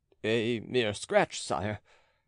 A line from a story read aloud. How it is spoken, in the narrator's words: stammered Charny